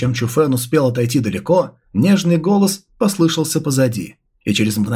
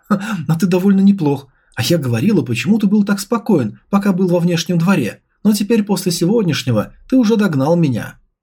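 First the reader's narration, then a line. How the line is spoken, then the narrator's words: Joyful. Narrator (Russian): радостно произнесла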